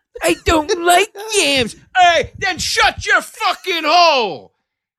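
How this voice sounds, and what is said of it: Andrew Dice Clay-style female voice. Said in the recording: “your impression of me is Andrew Dice Clay's female voice”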